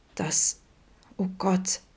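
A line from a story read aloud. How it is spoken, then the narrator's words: Thin-voiced stammer. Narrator (German): stammelte Vincent mit dünner Stimme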